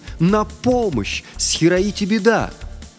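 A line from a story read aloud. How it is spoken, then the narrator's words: Shouting. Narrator (Russian): Это кричал Кода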